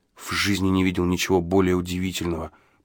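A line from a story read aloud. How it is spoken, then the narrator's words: Whisper. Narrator (Russian): прошептал я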